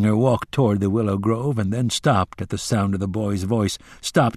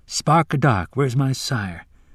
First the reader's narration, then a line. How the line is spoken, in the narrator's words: the boy murmured